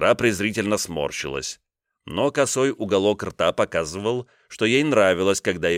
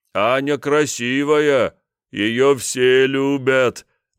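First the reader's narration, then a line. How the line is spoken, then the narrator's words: Feigned dim-witted drawl. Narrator (Russian): наигранно дебиловато протянул я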